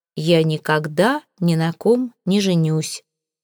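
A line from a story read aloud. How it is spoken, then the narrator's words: Calm. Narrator (Russian): спокойно сказал я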